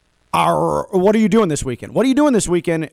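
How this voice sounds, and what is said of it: Pirate voice. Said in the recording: “why I sound like a pirate”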